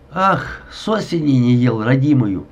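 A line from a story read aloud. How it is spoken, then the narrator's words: Growled with full mouth. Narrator (Russian): с набитым ртом прорычал Шельгинг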